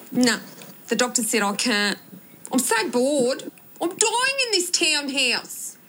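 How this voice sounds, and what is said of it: Exaggerated Australian accent imitation. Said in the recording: “She went extra Australian for her Nicole impression.”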